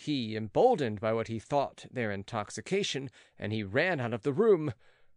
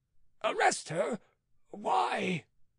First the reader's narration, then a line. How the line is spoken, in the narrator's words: cried Beausire